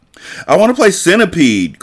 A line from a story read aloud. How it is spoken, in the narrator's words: Claire cried